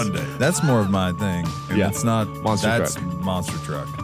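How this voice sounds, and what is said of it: Usual voice. Nothing is said of it.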